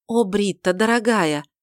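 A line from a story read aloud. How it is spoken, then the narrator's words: Affectionate exclamation. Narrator (Russian): воскликнула Тельма, ласково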